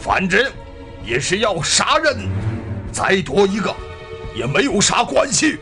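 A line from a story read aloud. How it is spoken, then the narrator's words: Shouting. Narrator (Chinese): 这小子嘴里还喊叫着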